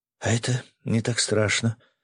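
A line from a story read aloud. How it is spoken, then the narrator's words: Surprised whisper. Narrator (Russian): удивленно прошептала она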